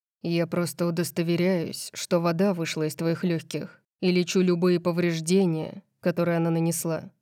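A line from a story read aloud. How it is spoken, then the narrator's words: Strangely even tone. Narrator (Russian): объяснил он странно ровным тоном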